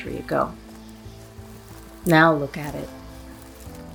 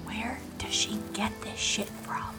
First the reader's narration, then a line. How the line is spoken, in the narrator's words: She whispered